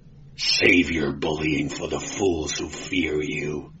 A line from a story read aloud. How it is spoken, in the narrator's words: he growled, blue fire smoldering in his eyes